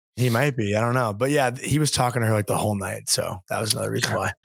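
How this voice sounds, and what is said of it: Strained, fading voice. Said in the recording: “I'm losing my voice. ... I need some water.”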